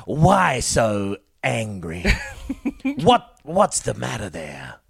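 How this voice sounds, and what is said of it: Joker impression. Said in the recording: “That was my Joker impression.”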